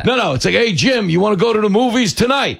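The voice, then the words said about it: Strong regional accent, bookie-like. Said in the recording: “a lot of women who have my accent ... It sounds like a bookie calling to collect.”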